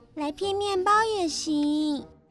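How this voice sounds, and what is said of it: Speaking softly, quietly. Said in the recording (Chinese): “小声地说”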